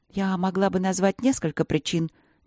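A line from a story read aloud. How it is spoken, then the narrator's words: Steady, quiet, respectful. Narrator (Russian): не дрогнула Ангелина, но говорила она тихо, уважительно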